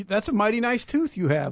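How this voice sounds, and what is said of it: Put-on accent. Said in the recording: “with that accent”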